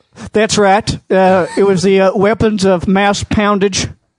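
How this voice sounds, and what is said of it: Imitates another person's voice. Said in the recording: “his impression of you, like he's doing right now”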